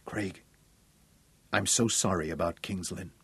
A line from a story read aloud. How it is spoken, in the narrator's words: She sighed, she said softly